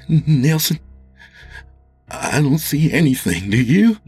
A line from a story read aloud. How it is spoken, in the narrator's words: Jimmy said nervously